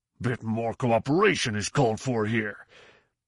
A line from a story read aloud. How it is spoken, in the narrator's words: Rorf Willems, Minister of Defense, was grumbling